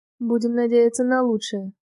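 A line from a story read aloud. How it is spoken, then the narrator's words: Dry, curt. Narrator (Russian): сухо сказал начальник службы безопасности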